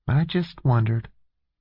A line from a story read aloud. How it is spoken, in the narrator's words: Jane said softly